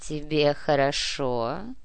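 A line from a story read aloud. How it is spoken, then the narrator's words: Deep slightly husky voice. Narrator (Russian): Грудной с легкой хрипотцой голос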